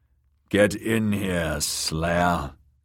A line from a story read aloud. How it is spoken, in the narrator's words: growled the man in the doorway